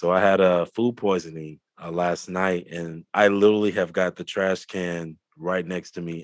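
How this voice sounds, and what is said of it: Sick, under-the-weather voice. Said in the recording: “I'm a little bit under the weather, so if you hear it in my voice”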